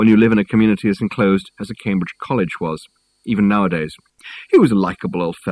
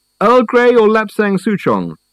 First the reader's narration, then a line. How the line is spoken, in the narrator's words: called out Reg